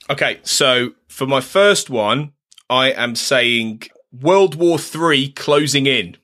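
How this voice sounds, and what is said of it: Usual voice. Nothing is said of it.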